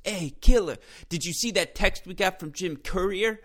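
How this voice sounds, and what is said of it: Imitates another person's voice. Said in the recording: “try and do my BG voice. ... that was a poor imitation”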